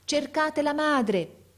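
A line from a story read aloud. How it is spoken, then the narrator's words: Shouting to crowd. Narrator (Italian): gridava il signore alla folla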